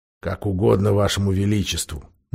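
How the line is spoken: Displeased mutter. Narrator (Russian): недовольно буркнул Дриниан

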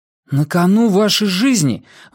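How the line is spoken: Exclaiming. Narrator (Russian): воскликнул Уайлен

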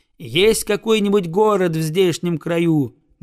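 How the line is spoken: Boy's loud question. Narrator (Russian): громко спросил мальчик

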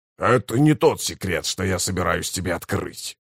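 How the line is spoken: Growl. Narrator (Russian): прорычал кафал

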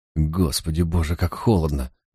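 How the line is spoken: Shivering, cold mumble. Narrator (Russian): пробормотал он, содрогаясь в своем насквозь промокшем камзоле

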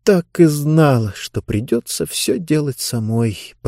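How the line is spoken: Muttered. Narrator (Russian): пробормотала Диба

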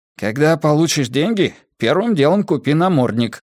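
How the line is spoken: Displeased grumble. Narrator (Russian): недовольно пробурчал Джеспер

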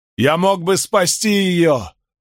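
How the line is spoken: Shouting after someone. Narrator (Russian): прокричал Айрон вслед

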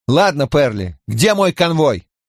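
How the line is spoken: Shouting. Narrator (Russian): Крэмер прокричал

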